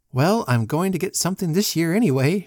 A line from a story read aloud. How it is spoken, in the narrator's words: she said with a laugh that was happy